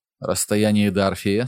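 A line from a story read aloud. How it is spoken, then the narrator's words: Plain. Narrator (Russian): спросил он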